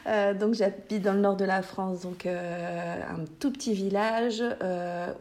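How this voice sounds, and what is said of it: Northern French regional accent. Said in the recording (French): “vous allez entendre mon magnifique accent. ... je vais faire attention d'essayer de ne pas parler ch'ti.”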